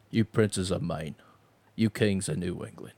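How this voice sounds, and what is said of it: Imitates another person's voice. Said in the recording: “podcast in your Michael Caine voice?”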